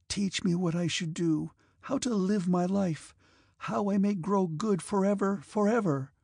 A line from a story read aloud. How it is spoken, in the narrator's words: she pleaded